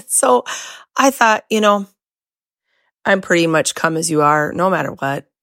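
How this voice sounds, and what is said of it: Hoarse voice with occasional squeaks. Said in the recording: “I'm on the back end of losing my voice for 9 days... I'm going to have a little bit of squeaks”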